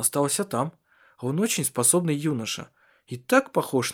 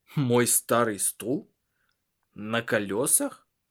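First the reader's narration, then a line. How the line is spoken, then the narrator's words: Burst of laughter. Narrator (Russian): расхохотался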